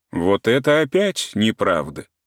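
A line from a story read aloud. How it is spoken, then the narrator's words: Self-important objection. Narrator (Russian): уже совсем важным тоном возразил Каменский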